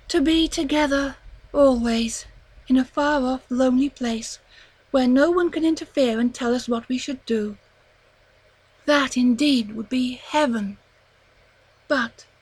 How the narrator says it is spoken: she sighed deeply

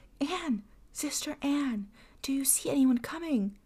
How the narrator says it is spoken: his wife, and then again she cried

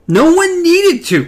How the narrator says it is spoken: Cuthbert shouted

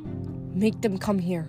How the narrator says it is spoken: Hazel muttered over her shoulder

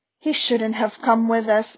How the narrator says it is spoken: said Hermione in a worried voice

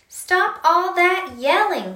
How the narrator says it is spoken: shouted the man's wife

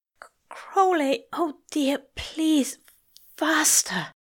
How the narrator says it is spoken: the angel whimpered

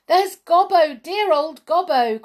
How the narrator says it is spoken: cried Hop

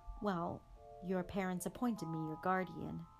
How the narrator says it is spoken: said Sirius stiffly

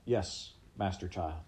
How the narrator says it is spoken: Pickett said

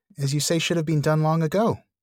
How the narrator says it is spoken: cried Frodo again

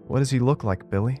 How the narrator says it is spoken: a bubbly fourth grader asked nervously

